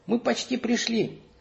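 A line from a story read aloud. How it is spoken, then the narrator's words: Happy announcement. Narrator (Russian): сообщила она радостно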